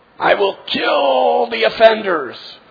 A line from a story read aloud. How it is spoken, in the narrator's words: roaring